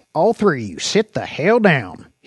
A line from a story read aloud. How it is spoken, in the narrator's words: He growled